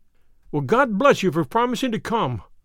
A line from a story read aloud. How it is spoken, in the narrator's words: cried our client